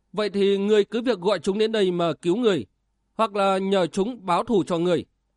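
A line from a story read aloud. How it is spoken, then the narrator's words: Scornful laugh. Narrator (Vietnamese): Lộ Văn Lan cười nhạt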